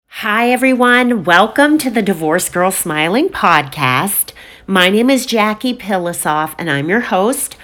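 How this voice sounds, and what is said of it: Low, scratchy, congested voice. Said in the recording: “my voice sounds a little different. It's a little lower. It's a little scratchy... I have just gotten over COVID, so I now have a very stuffed nose and I sound like a dude”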